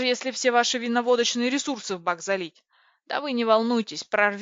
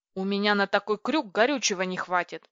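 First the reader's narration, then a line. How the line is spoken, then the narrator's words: Irritated reply. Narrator (Russian): раздраженно отозвался пилот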